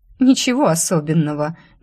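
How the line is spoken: Nervous giggle. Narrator (Russian): нервно хихикнула я

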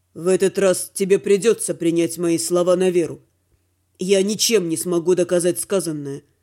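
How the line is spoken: Perfectly calm. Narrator (Russian): совершенно спокойно сказал Дима

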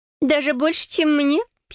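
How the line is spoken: Giggling. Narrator (Russian): хихикнула Сесси

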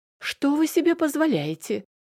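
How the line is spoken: Shriek. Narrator (Russian): Взвизгнула она

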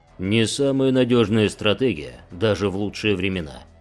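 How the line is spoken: Plain. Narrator (Russian): сказал Гидарес

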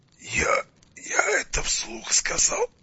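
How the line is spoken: Wheezing. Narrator (Russian): просипел Витязь и закашлялся

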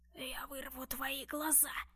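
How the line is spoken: Creature's hiss. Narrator (Russian): прошипело существо

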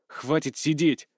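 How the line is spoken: Angry. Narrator (Russian): зло проговорил Дмитрий

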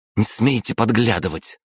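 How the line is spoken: Sharp. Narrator (Russian): резко проговорила Хельга

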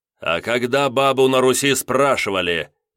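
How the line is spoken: Loud, rude reply. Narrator (Russian): громко и грубо ответил я Танеевой

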